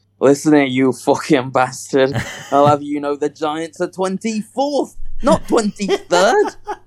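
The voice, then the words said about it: Northern English accent, Wallace-like. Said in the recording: “your northern impression just, it sounds like Wallace from Wallace and Gromit”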